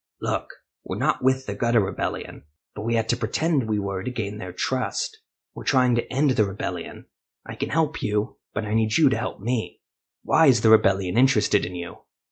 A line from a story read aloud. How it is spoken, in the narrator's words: he lowered his voice and said